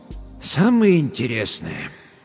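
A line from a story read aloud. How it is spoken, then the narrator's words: Sighing. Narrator (Russian): доктор вздохнул еще раз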